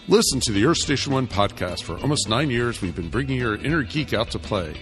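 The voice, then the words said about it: Booming radio announcer voice. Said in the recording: “I guess I could just use my announcer voice.”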